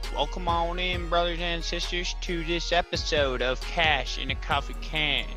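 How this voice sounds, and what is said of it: Very strong hillbilly accent. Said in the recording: “our resident hillbilly. He has an accent so strong, I can't even understand his name”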